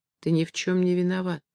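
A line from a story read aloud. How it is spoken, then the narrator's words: Quiet. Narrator (Russian): тихо сказала она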